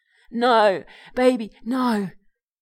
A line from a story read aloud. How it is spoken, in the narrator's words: whimpers her mum